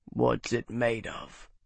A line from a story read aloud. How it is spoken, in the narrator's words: Bernard rumbled